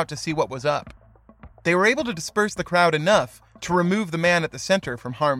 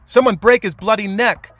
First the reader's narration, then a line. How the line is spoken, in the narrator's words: heard men screaming